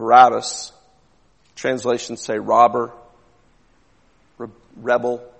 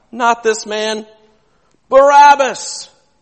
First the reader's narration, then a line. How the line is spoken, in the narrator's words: they cried out